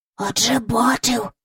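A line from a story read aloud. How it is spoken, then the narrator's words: Whisper. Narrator (Ukrainian): прошепотів Майкл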